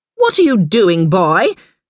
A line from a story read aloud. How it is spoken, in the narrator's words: She snapped